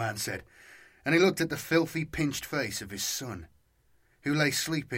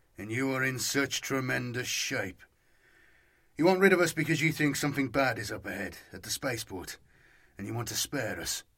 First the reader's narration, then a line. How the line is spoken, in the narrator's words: the boy's father said dryly